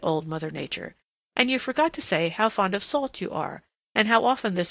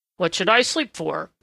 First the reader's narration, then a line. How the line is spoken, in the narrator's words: grumbled Prickly Porky